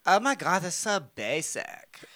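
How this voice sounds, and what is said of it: Anna's Valley girl-British mixed accent. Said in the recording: “she's got the very distinctive accent, too ... it's like between a Valley girl and a British girl. It's really weird ... this really off the fucking wall accent ... It has like lilts of Russian in there somewhere”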